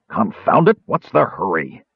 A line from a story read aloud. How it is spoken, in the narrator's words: Caramon snarled angrily